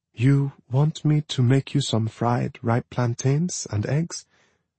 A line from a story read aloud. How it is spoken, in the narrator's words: Nani whispered